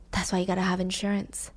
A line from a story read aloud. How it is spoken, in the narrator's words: He whispers